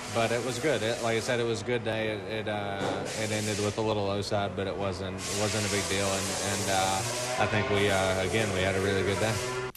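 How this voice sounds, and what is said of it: Texan Southern American accent. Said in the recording (French): “d'accent texan, hein, d'accent du sud là, de Ben Spies”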